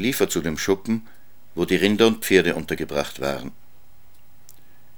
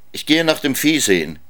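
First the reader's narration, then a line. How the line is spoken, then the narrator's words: Calling out. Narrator (German): rief er seiner Frau zu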